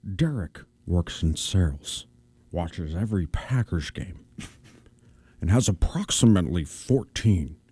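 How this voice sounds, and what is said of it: Imitates another person's voice. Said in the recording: “my Sean Connery impression. Which is my worst one”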